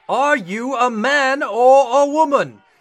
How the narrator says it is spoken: the veins in the captain's forehead bulged as he boomed

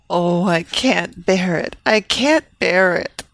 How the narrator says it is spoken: Evelina moaned

